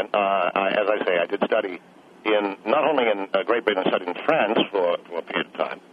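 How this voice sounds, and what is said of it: Mid-Atlantic accent. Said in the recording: “I notice you have an accent ... I have what some people describe as a mid-Atlantic accent.”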